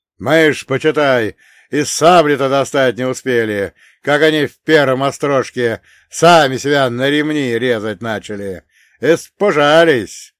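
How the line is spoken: Loud infectious laughter. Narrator (Russian): Он громко, заразительно расхохотался

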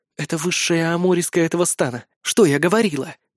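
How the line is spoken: Delighted whisper. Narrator (Russian): прошептала Эмира с нескрываемым восторгом

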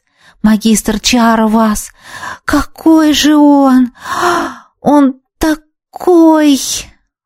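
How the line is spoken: Admiring breathless girl. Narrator (Russian): выдохнула восхищенно девушка

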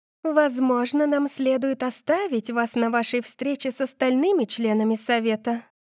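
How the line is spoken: Purring. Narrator (Russian): промурлыкала Каталина

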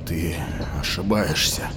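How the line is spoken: Muttered. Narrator (Russian): пробормотал Тарсом

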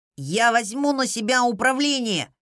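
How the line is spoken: Blocked nasal voice. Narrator (Russian): прогнусавил Эол из-за шариков в носу

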